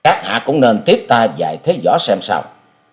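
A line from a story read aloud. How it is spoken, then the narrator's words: Cold male voice. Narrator (Vietnamese): Giọng của chàng lạnh lùng nói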